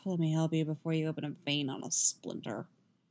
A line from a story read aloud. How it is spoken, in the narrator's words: he mutters